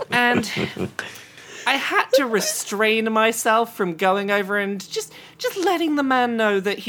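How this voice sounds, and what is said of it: Usual voice. Nothing is said of it.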